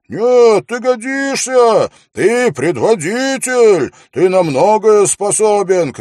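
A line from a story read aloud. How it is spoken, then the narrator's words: Shout. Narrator (Russian): крикнул кто-то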